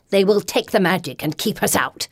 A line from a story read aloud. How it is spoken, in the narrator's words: Neela hisses